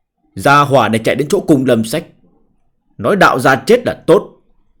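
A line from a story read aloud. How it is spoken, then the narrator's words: Cold. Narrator (Vietnamese): Viên Cương lạnh lùng nói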